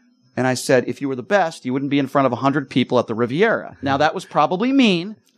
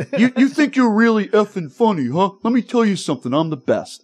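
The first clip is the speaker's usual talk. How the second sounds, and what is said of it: Imitates another person's voice. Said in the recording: “I have a horrible Dice impersonation.”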